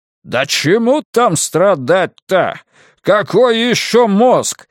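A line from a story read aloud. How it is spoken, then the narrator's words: Deliberately loud question. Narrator (Russian): нарочито громко спросил падла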